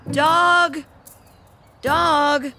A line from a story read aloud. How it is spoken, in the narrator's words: Miles called out